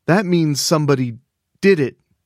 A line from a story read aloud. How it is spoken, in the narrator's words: Vera stammered